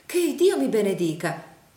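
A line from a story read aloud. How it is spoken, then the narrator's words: Exclaimed. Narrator (Italian): esclamò la signora Nickleby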